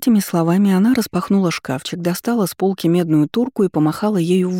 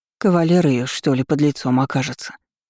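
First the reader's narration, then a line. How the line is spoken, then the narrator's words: Muttered. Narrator (Russian): Пробормотала соседка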